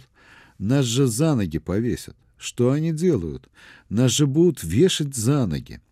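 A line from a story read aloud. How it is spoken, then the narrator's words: Exclaiming. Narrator (Russian): Степашин воскликнул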